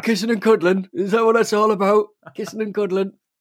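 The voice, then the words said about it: Imitates another person's voice. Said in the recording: “Do I sound like that? That is not my accent... Is that your ... impression of me?”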